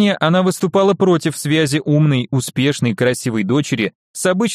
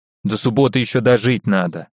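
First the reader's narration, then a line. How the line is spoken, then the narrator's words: Grumbling. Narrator (Russian): буркнула Ольга Ивановна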